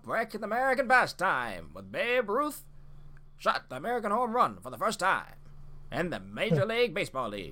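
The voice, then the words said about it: Put-on transatlantic accent. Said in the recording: “I'm just throwing in a transatlantic accent.”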